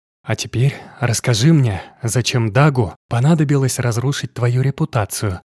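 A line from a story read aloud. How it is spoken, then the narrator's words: Whispered. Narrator (Russian): прошептала она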